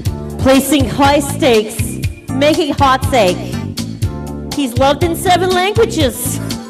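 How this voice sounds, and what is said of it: Put-on New York accent. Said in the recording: “When I do this one, I like to do a New York accent, usually.”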